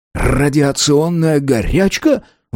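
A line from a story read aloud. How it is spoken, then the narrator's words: Exclaiming. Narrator (Russian): воскликнул лейтенант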